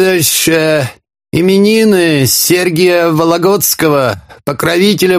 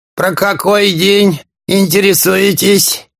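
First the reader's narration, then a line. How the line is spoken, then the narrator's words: Husky beggar asking. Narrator (Russian): сипло спросил нищий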